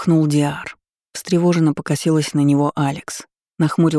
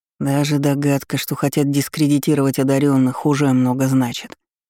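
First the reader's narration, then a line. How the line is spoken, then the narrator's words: Plain. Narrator (Russian): сказал Наран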